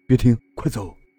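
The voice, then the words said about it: Tense, quiet low-voiced warning. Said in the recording (Chinese): “变为十分紧张而又严肃的表情，对司机小声说”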